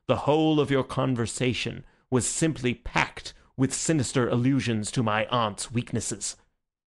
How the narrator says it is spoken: said Syme earnestly

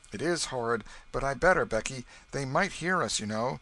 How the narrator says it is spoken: he shouted again

